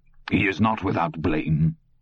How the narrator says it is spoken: Bowden said harshly

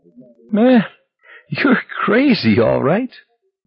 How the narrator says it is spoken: Magliore said, when his laughter had subsided at chuckles and hitchings

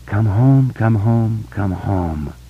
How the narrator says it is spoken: Beverly said softly

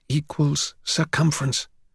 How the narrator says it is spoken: Jimmy whispered

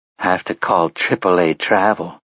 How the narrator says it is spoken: Susanna said dreamily

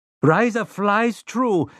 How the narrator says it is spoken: Rosalita Munoz shrieked

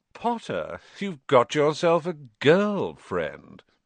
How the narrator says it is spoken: drawled Malfoy

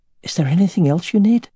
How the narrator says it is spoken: she asked, her voice unusually hoarse

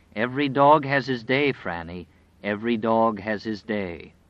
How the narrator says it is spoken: Harold said solemnly

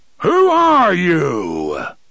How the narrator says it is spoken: a voice roared, it came not just from the box, but from every speaker in the city

